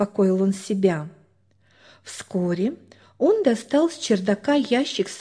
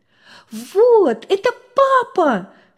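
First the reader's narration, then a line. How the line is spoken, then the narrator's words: Daughter's jubilant exclamation. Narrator (Russian): ликуя воскликнула дочь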